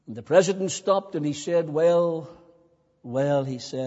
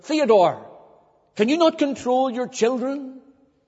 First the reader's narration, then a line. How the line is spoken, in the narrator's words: he snapped and he said